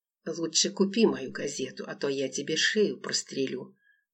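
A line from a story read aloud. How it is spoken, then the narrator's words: Homeless man, quiet repeat. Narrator (Russian): повторил бомж негромко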